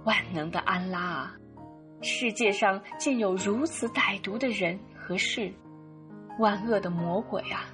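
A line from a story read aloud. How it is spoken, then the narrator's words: Lamenting. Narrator (Chinese): 优素福振作了一下精神，哀叹道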